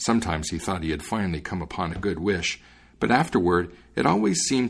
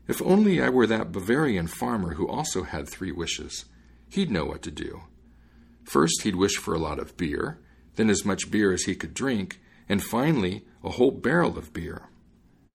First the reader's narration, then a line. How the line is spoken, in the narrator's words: he sighed and said